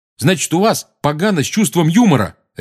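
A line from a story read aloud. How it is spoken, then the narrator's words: Barked. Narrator (Russian): рявкнул Рон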